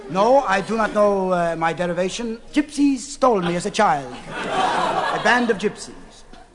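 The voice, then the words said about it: Greek accent. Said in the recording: “you have a Greek accent.”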